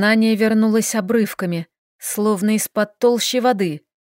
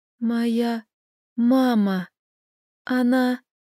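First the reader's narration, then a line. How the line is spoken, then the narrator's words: Strained whisper. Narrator (Russian): С трудом выдавив из себя слова, я прошептала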